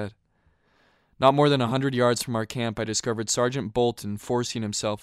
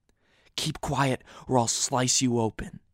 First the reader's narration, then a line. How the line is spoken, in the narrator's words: he whispered